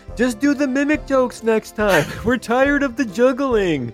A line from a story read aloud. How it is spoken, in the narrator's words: somebody yells out